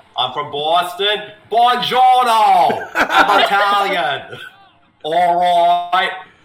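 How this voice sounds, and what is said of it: Imitated Boston voice with Italian twist. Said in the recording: “How would Mark Wahlberg sound if he was Italian?”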